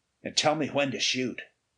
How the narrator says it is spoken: Ray muttered

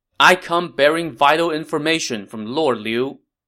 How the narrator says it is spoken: Lu Bu shouted from outside the city gate

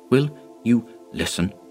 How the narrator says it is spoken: he whispered to Dyson

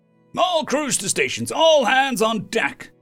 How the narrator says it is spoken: Captain Taran yelled out

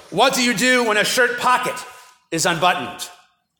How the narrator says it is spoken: bellowed

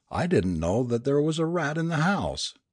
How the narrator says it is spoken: exclaimed the mother

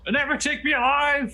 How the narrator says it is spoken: he's shouting at us from a distance

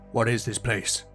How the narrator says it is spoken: Beric questioned in a low voice

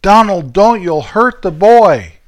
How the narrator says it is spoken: my mom yelling

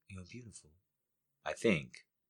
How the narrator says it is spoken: She whispered

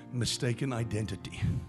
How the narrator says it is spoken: the Holy Spirit whispers in my ear and says

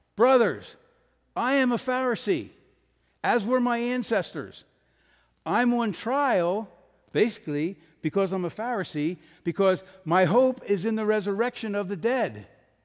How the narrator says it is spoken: he shouted

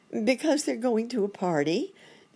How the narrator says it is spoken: exclaimed Dr

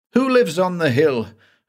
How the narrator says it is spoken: I gasped

